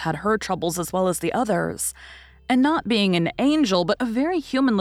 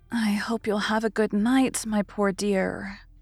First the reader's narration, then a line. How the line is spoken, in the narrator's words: whispering tenderly